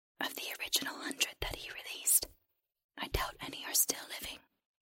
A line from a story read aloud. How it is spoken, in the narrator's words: the creature whispered